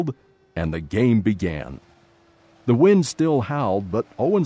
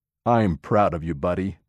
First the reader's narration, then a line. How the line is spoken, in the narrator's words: Dad said